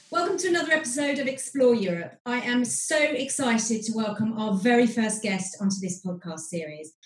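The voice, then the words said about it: British accent. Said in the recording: “for those of you tiring of my British accent”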